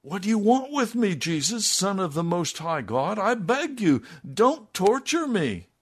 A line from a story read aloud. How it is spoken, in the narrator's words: he cried out, shouting at the top of his voice